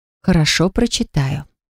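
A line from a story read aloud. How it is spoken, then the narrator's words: Calm. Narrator (Russian): сказала спокойно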